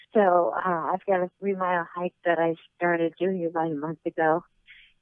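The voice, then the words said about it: Out of breath, winded speech. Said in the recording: “Sorry, I'm out of breath.”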